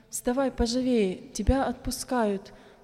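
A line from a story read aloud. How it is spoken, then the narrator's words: Deafeningly loud. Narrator (Russian): так громко сказали до звона в ушах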